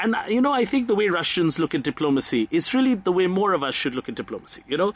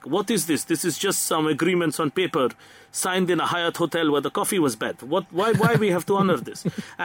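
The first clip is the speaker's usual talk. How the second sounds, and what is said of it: Bad put-on Russian accent. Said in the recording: “that is the worst Russian accent in the history of the world ... I enjoyed the Russian accent.”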